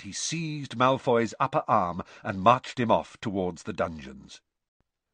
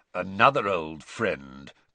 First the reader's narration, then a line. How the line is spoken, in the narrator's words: growled Moody